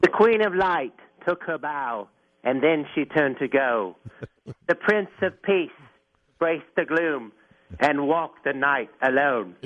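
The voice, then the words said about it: Fake British accent. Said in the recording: “Is this a phony British accent? Please lose it.”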